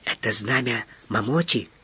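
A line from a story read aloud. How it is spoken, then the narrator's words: Whispered question. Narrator (Russian): шепотом спросил Маса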